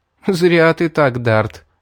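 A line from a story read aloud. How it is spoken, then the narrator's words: Girl laughing. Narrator (Russian): рассмеялась девушка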